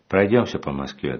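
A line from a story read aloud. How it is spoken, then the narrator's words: Plain. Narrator (Russian): говорит он мне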